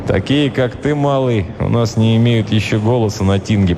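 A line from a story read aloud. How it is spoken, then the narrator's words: Grumbling Varangian. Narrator (Russian): проворчал варяг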